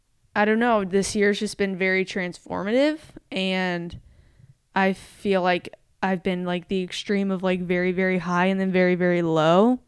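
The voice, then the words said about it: Slightly choked-up, emotional voice. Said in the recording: “I'm getting like a little choked up”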